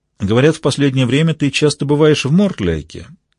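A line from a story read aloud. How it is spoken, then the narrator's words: Casual, offhand tone. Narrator (Russian): министр королевы небрежным тоном произнес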